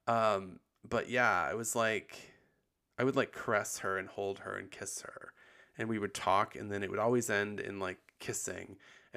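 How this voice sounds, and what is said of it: Husky, tired-sounding voice. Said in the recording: “I think my voice sounds really husky right now too, because I'm post bronchitis and also end of the day tired.”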